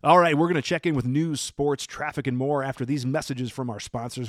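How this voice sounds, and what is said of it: Announcer-style radio DJ voice. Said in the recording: “I always wanted to have that radio voice”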